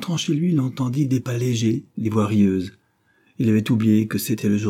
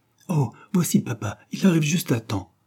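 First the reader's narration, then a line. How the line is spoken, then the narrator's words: Exclaiming woman. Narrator (French): s'écria-t-elle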